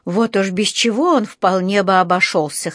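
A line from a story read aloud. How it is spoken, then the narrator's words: Snorting. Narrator (Russian): хмыкнул он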